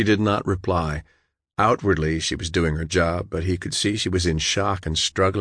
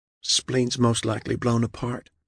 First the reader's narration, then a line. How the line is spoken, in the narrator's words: she whispered